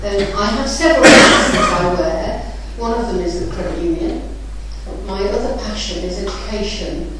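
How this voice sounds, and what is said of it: Northern English accent. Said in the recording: “You may pick up from my accent, I'm a northerner, so I'm a mid-Cheshire export to the south”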